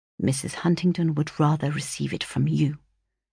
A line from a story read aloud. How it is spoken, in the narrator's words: replied he, in a very serious tone, but lowering his voice that his mother might not hear